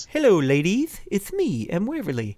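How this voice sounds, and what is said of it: Puppet character voice. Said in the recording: “Did you do his voice too? ... I do do his voice”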